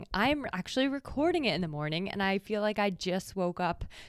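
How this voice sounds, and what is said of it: Voice sounds a little off. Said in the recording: “my voice sounds a little weird”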